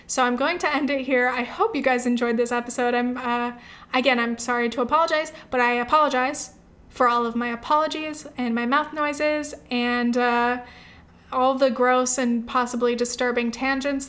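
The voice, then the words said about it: Strained, fading voice. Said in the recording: “as you can hear, I am losing my voice.”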